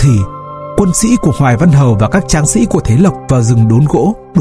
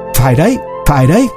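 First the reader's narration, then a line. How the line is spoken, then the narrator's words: Laughing loudly. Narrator (Vietnamese): Hoài Văn cười lớn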